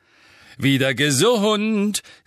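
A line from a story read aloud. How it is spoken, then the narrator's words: Beaming call into another room. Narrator (German): rief er strahlend in die Küche hinein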